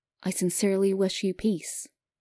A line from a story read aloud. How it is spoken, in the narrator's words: he said